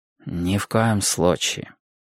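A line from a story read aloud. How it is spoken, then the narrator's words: Unusually gentle. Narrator (Russian): ответил Сайлос непривычно мягко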